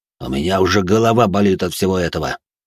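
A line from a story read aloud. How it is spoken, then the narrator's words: Displeased voice. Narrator (Russian): Недовольным голосом произнес тот, кого раньше называли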